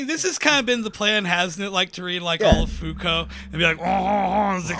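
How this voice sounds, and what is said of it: Usual voice. Nothing is said of it.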